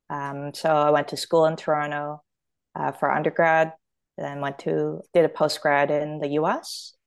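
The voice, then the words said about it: Canadian accent. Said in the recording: “your accent is Canadian”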